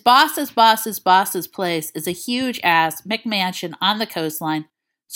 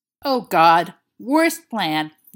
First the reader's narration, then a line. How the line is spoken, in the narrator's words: Lewis hisses